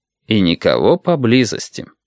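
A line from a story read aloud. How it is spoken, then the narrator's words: Mutter. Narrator (Russian): пробормотал Максим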